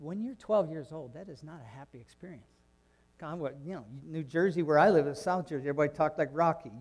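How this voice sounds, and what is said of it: Usual voice. Nothing is said of it.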